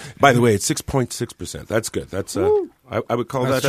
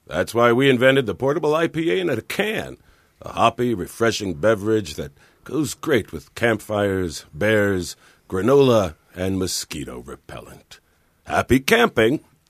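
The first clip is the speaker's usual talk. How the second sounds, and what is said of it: Old Southern gentleman voice. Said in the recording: “he sounds like a Colonel Sanders”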